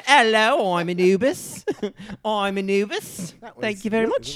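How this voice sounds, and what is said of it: Bad put-on British accent. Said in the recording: “a bad British accent ... It was really bad.”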